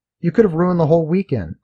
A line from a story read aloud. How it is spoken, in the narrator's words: exclaimed